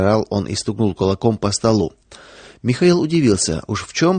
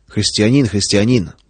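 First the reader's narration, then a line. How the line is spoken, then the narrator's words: Grumbling. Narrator (Russian): пробурчал он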